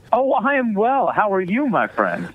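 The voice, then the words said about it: Put-on cheery voice. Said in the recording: “put on the cheery voice”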